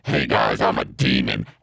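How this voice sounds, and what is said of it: Modulated demon character voice. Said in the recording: “putting on this voice modulation”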